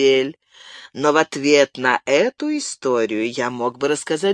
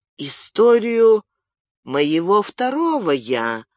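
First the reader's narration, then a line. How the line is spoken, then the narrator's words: Calm question. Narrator (Russian): спокойно спросил Мартен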